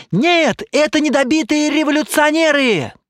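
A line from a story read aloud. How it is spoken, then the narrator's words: Shouting. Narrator (Russian): кричал другой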